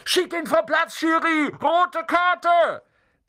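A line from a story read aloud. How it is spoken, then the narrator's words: Shouting. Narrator (German): schrie Dean Thomas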